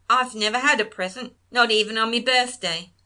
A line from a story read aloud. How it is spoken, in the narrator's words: there came a snort